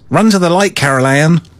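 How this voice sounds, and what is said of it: Bad put-on American accent. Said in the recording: “In my worst American accent ever.”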